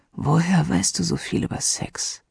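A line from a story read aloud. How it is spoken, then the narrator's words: Hoarse question. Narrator (German): fragte er heiser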